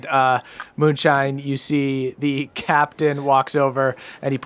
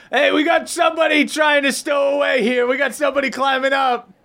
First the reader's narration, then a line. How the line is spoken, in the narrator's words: he yells to the boat